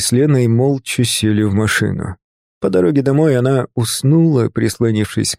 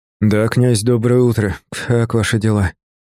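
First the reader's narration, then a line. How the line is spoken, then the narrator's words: Sleepy question. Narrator (Russian): спросил я сонным голосом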